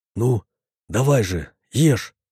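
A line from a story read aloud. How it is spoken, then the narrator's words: Casual whisper. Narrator (Russian): прошептал я, стараясь не подавать вида, что происходит нечто необычное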